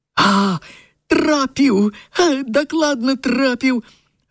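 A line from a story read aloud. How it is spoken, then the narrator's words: Joyful shout. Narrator (Belarusian): Радасна выгукнуў Лёнік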